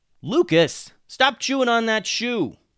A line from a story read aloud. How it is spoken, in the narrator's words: yelled Alex